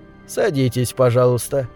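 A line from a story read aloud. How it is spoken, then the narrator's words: Calm. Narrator (Russian): спокойно сказал он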